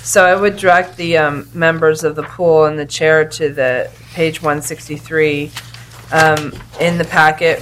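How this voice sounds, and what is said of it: Slightly odd voice. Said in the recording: “I apologize for my cold. My voice is a little bit odd.”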